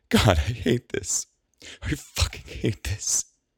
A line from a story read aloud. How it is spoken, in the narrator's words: Penelope grits her teeth as she cries